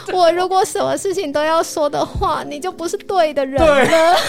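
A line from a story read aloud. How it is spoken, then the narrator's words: Crying girl speaking. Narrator (Chinese): 女生就哭了，女生就说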